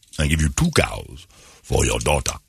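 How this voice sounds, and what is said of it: James Earl Jones impression, film accent. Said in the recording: “the accent ... doing James Earl Jones' voice”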